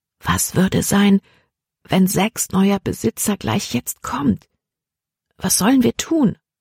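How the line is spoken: Quiet. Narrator (German): sagte sie leise

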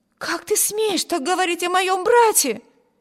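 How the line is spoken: Indignant exclamation. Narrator (Russian): воскликнула Эми

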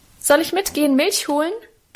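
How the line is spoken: Cheerful call. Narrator (German): rief ich ihm munter zu

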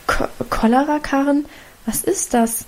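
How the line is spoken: Mother stammering. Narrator (German): stammelte Mutter

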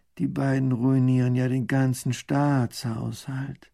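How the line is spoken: Groaning. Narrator (German): Baron von Raffini stöhnt

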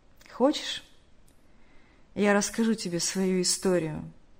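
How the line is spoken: Heavy sigh. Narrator (Russian): Тяжело вздохнув, сказал тот

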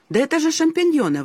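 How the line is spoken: Exclamation. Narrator (Russian): воскликнул я

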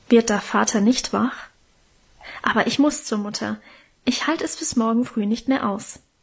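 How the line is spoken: Low murmur. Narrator (German): raunte er

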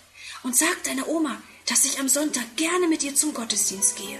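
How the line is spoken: Whisper. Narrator (German): flüstert

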